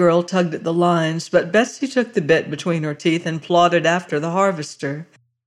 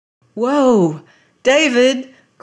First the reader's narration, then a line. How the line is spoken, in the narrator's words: cried the girl